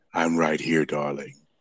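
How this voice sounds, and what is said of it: Deep, sultry low voice. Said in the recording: “trying to be all sexy ... that deep voice ... Just drop that bass.”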